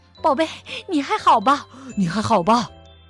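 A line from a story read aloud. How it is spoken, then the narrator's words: Breathless panting question. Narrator (Chinese): 他们气喘吁吁地问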